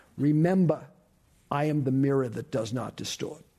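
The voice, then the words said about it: Thick New York accent. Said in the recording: “with kind of a thick New York accent”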